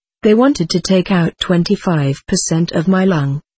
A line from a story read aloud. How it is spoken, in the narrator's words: says Lynette